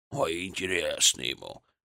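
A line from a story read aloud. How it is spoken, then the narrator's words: Grumbling. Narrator (Russian): проворчал Библус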